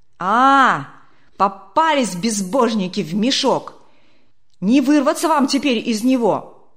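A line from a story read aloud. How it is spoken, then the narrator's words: Threatening shout from crowd. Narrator (Russian): Кто-то угрожающе крикнул из первых рядов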